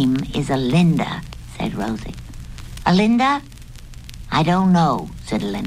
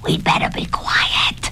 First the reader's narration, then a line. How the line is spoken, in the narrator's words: Budgie whispered